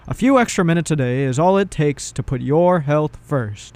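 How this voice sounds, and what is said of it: Mock radio announcer voice. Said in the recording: “To do my little voice ... I'll do an announcer.”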